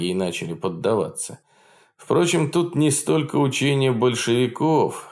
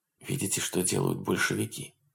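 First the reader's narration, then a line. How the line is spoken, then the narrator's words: Old man's whisper. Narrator (Russian): шептал, покачивая седой головой Бодиска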